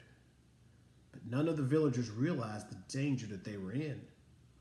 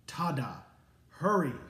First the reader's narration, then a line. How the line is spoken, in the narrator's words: he said